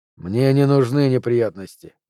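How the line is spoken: Calm. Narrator (Russian): Он спокойно сказал

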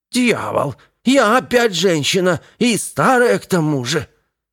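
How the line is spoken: Cracked old voice exclaiming. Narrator (Russian): Восклицание, произнесенное надтреснутым старческим голосом

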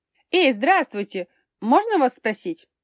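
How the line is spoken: Loud shout. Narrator (Russian): Громко крикнула

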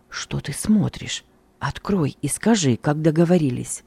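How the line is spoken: Insistent annoyed whisper. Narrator (Russian): Недовольный тем, что Сергей не открывает электрикам, я настойчиво прошептал

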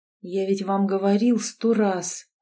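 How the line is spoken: Muffled, hollow reply. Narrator (Russian): глухо ответил Герман

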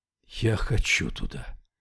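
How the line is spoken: Breathed out. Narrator (Russian): выдохнул Яффа

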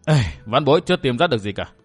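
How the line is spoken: Sighing. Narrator (Vietnamese): Lâm Tứ buông tiếng thở dài

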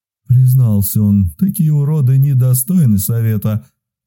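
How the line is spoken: Old man muttering. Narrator (Russian): Буркнул дед

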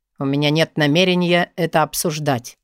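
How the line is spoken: Firm, slightly cold. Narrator (Russian): твердо и немного холодно говорит он через паузу

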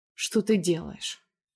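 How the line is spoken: Hoarse question. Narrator (Russian): хрипло спрашивает

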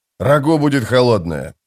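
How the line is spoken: Grumbled. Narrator (Russian): проворчал Беннет

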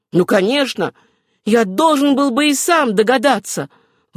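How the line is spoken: Tragic, sincere exclamation. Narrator (Russian): воскликнул Родерик Спенсер трагическим голосом, но в то же время вполне искренне

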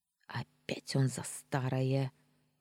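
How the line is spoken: Grumbling under breath. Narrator (Russian): вполголоса проворчала я

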